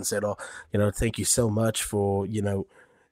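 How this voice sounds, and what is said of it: Put-on American accent. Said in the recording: “Why did he have an American accent? ... Because he was yee-haw”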